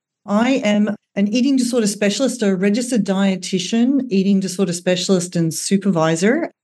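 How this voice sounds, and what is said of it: Australian accent. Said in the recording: “I'm Australian, as you can probably hear from the accent”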